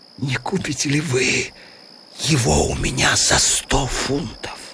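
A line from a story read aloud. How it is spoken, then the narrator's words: Whispered. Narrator (Russian): шепнул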